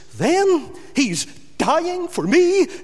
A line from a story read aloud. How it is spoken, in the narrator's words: gasps that amazed criminal